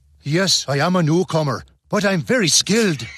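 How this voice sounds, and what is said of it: Exaggerated, bad Irish accent. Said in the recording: “give him the most gruesome Irish accent imaginable ... That's worse than Tom Cruise's Far and Away accent.”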